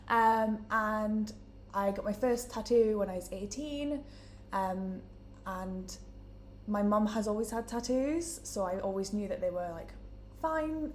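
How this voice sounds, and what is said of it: Newcastle English accent. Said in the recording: “as you can tell from my accent, I'm from Newcastle”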